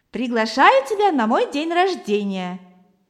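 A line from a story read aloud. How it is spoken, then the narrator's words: Laughing. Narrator (Russian): засмеялся Валера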